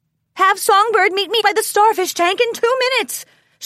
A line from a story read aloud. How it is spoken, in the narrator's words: she yelled out as she disappeared with an excited canter into the crowd